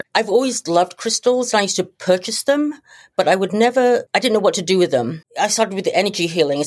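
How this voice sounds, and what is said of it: British accent. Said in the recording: “She has a really cool British accent.”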